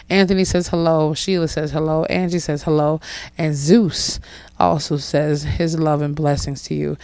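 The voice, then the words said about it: Slightly hoarse, rough voice. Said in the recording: “excuse my voice. I just got over the hurdle of having it not be completely hoarse ... It's a little bit rougher to talk, and I might be seeming like it's a little bit more Marge Simpson hashtag sounding”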